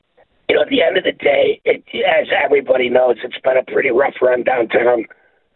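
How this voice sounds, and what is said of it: Rough, hoarse voice. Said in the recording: “sorry for my voice being so rough this early in the morning”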